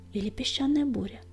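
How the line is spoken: Quiet inner whisper. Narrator (Russian): прошептал тихий голос в его душе

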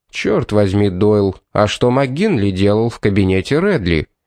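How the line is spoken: Grim question. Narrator (Russian): мрачно вопросил Одей

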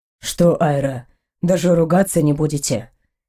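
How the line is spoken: Hoarse, close. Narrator (Russian): Хриплый голос Эйнора и его теплое дыхание рядом с моей щекой

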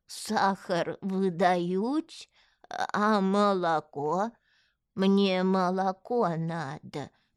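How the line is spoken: Creaky voice. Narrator (Russian): проскрипел он

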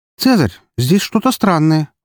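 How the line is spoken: Exclamation. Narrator (Russian): воскликнула Фокси

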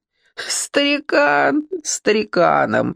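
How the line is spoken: Laughing loudly. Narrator (Russian): хохотал Гриша

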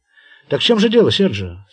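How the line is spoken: Plain. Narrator (Russian): спросил Пласки

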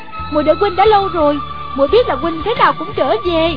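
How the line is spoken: Joyful smiling cry. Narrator (Vietnamese): Gương mặt cô rạng rỡ nét cười, reo lên

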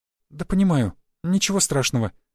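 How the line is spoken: Frightened, forced smile. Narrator (Russian): выдавила улыбку испуганная девушка

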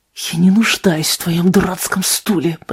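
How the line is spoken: Hissing. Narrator (Russian): прошипел

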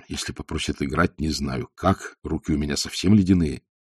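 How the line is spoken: Whispered, male. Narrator (Russian): Он говорил мне шепотом

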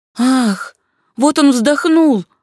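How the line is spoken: Exclaimed. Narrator (Russian): воскликнула сестра Гиацинта

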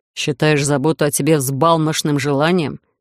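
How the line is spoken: Growl. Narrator (Russian): рыкнул Эдриш

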